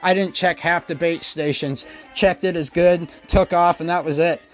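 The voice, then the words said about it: Breathless, out-of-breath speech. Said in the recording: “I'm out of breath, guys.”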